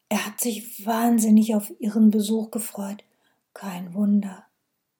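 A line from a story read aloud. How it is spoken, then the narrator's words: Faint whisper. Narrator (German): Zuletzt flüsterte sie nur noch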